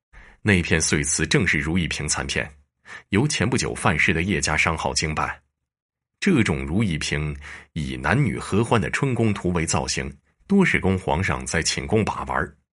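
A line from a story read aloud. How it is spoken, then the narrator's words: Cold. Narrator (Chinese): 陈大人冷冷道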